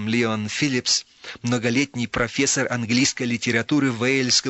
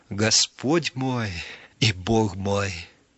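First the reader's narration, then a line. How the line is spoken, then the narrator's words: Trembling voice. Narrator (Russian): Фома сказал дрожащим голосом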